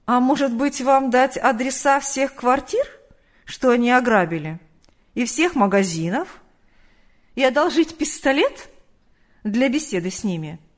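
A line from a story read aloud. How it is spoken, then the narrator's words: Laughing. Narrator (Russian): Рассмеялся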